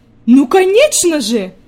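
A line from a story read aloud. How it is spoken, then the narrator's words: Grandmother exclaiming. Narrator (Russian): воскликнула бабушка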